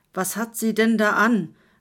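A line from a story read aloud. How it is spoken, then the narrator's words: Shouting over noise. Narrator (German): rief Kurt gegen den Lärm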